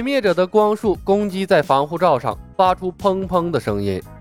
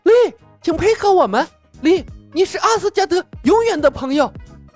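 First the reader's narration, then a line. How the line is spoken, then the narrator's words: Shouting. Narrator (Chinese): 西弗喊道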